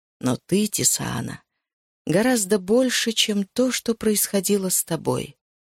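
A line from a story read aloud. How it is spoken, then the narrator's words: Soft, gentle voice. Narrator (Russian): мягко сказал он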